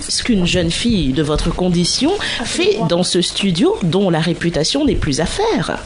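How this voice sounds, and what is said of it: Put-on posh bourgeois accent. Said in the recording (French): “j'ai fait un accent de bourgeois.”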